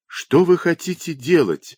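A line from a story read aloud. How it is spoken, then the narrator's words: Alarmed exclamation. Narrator (Russian): воскликнула она, вдруг подумав, что отбирают клочок ее надела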